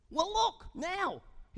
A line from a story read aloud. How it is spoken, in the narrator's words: shouted